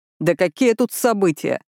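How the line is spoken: Displeased snort. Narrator (Russian): Хуан недовольно хмыкнул

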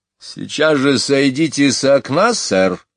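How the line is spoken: Stern. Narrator (Russian): строго проговорила она

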